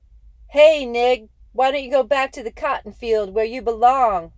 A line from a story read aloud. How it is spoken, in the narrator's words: cup his hands around his mouth and holler